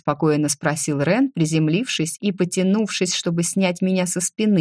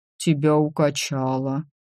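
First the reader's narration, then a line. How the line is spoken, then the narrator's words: Sad conclusion, dragon. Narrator (Russian): печально заключил дракон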